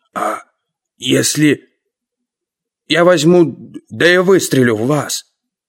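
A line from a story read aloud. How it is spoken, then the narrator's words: Hoarse wheeze. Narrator (Russian): обалдело прохрипел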